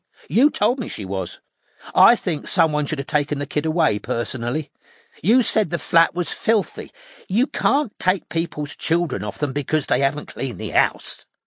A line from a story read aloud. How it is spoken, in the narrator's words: said Janice firmly